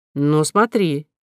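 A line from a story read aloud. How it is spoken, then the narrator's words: Stern. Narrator (Russian): строго сказала Кора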